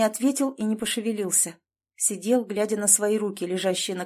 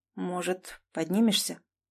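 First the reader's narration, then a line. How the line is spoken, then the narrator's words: Sudden quiet question. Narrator (Russian): неожиданно и тихо спросил Клим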